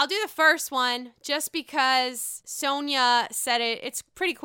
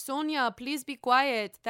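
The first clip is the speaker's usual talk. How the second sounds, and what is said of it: Poor put-on French accent. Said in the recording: “That's a terrible French accent”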